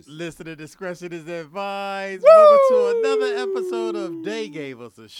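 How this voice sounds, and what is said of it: Wrestler's signature shout impression. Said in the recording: “Did that sound like Ric Flair right there?... That was a very good Ric Flair impersonation.”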